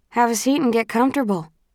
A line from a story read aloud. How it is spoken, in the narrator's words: she says